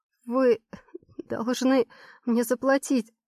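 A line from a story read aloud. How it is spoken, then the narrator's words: Trembling voice. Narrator (Russian): выговариваю дрожащим голосом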